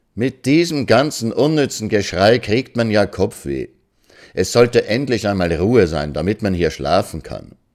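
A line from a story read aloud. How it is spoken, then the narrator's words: Loud, far-carrying voice. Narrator (German): Ekianga, ohne zu rufen, sagte nur laut, aber so, dass man es 5 Hütten weit hören konnte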